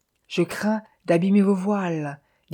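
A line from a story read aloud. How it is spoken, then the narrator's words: Timid. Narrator (French): dit timidement Maya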